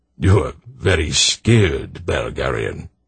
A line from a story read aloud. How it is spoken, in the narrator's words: Braydor murmured